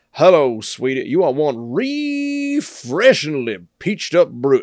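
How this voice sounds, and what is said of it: Put-on Georgia Southern accent. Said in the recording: “I think I'm supposed to say that in the Georgia accent. ... Are you supposed to say it in that way? What's the Foghorn Leghorn voice?”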